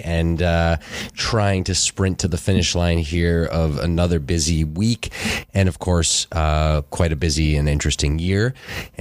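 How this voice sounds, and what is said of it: Sick, under-the-weather voice. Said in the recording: “as you might be able to tell from my voice, a little bit under the weather”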